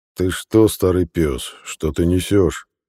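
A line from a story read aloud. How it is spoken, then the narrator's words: Irritated deep bass. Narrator (Russian): Раздраженно пробасил Докхут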